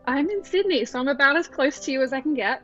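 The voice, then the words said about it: Australian accent. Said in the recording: “Beautiful accent.”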